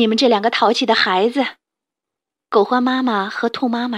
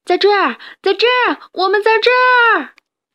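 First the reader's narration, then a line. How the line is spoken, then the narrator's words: Loud reply. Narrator (Chinese): 达尼也大声的答应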